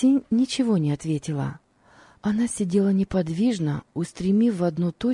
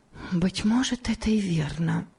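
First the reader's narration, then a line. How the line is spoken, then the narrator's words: Whisper to herself. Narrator (Russian): прошептала она про себя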